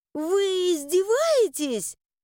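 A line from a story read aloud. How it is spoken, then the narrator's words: Exclaiming. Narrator (Russian): воскликнула я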